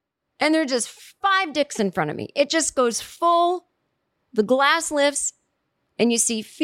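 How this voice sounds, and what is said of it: Usual voice. Nothing is said of it.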